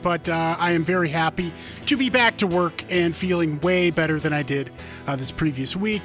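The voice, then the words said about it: Slightly hoarse voice. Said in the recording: “my voice is a little hoarse, because I am getting off of a vacation filled with sickness”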